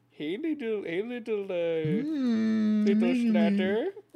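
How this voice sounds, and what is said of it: Cooing baby voice. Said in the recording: “Enjoying ... what would you call this, a baby voice, I suppose? ... Using with the guinea pig? ... I'm using this voice because they get calmer if you use a voice like this.”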